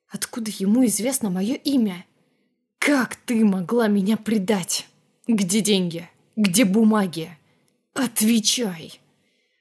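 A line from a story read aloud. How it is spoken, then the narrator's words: Growled. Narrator (Russian): Последние слова буквально прорычал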